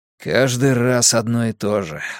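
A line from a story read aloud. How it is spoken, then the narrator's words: Irritated sigh. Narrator (Russian): вздохнул Вука раздраженно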